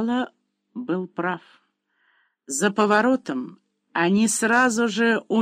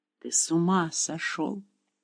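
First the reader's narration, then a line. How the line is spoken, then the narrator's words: Whisper. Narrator (Russian): прошептала Хулия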